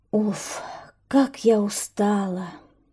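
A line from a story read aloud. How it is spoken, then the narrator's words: Tired sigh. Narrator (Russian): вздохнула гусеница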